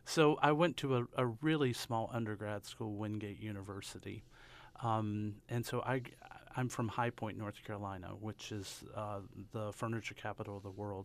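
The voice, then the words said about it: Southern US accent. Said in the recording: “I grew up in North Carolina. I have a hand of Southern accent, you may have heard. ... Kind of caught that.”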